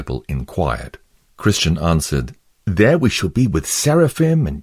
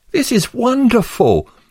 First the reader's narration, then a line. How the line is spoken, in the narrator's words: exclaimed Pliable